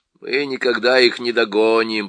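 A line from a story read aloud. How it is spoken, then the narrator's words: Grumbling dwarf. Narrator (Russian): проворчал гном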